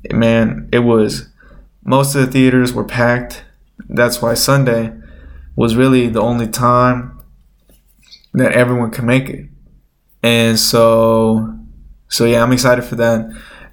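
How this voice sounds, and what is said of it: Nasal, stuffy-nosed voice. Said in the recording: “I sound a little nasally... my nose is a little stuffy... my voice is sounding even more probably nasally than usual”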